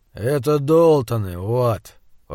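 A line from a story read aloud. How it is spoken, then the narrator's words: Even-voiced correction. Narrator (Russian): Ровным голосом поправил его Альберт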